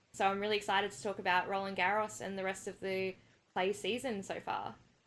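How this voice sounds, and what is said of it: Australian accent. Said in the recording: “is actually Australian ... I hadn't noticed from your accents”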